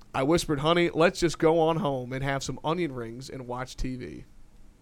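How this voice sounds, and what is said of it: Put-on country accent. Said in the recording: “try and do my best country accent”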